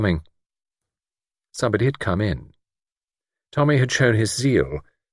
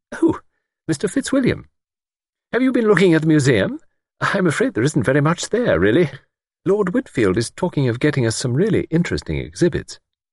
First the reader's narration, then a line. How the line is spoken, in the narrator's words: her face lit up and she exclaimed